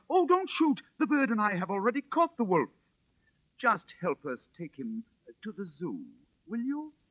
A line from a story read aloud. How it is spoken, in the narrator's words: Cried out